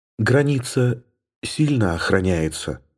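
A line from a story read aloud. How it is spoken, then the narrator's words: Whispered. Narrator (Russian): прошептала она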